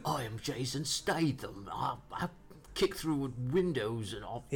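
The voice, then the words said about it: Jason Statham impression, narrator-like. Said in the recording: “I thought that's a Jason Statham accent ... You gotta be a bit more wispy, though. You sound more like ... One of those narrators.”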